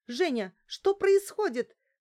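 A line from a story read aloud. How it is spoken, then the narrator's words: Indignant shouting. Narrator (Russian): закричала на меня Лариса, негодуя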